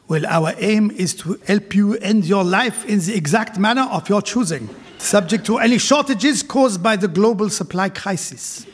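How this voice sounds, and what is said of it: Put-on Swiss German or French accent. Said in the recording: “My accent has changed because... I know Dignitas is in Switzerland. I don't know if it is German or French”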